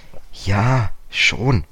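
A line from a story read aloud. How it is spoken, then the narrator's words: Hesitant male voice. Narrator (German): sagte George zögernd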